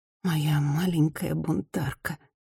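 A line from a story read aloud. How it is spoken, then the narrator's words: Whisper. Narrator (Russian): прошептала она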